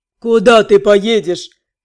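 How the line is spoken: Smirking troll. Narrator (Russian): хмыкнул тролль

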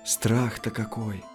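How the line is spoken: Whispered. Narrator (Russian): прошептала

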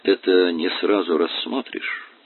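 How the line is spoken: Quiet. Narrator (Russian): тихо произнес

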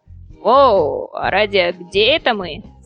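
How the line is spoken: Plain. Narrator (Russian): спросил Таврос

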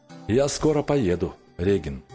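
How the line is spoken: Calm. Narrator (Russian): спокойно ответил он

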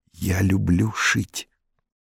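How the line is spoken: Said quietly. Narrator (Russian): Павлик тихо сказал

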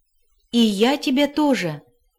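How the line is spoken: Joyful reply. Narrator (Russian): радостно откликнулся Макар

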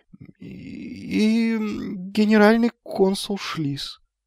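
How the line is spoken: Dejected voice. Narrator (Russian): упавшим голосом закончил Магнан

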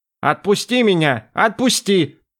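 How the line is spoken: Madman wailing upward. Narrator (Russian): вопил безумный колдун в потолок

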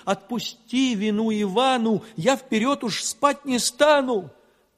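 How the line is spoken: Sobbing plea. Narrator (Russian): Иванушка заплакал и, рыдаючи, просил

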